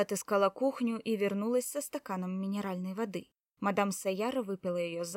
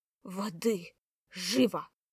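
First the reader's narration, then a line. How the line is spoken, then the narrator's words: Hoarse rasp. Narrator (Russian): Шаманка прохрипела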